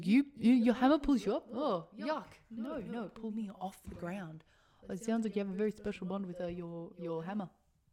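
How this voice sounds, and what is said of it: Put-on accent imitating movie character. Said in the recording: “you've done a very bad accent ... I thought it was very good.”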